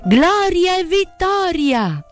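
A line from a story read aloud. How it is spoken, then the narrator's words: Shouted. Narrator (Italian): gridando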